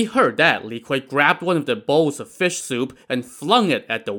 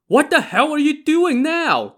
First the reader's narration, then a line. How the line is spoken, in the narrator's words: Dai Zong shouted at him